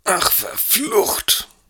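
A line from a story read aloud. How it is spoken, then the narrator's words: Man groaning. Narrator (German): stöhnte der Mann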